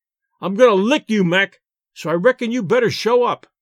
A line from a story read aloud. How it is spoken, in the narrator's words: shouted the Rube